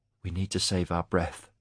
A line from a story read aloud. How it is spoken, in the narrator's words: Aaron said gently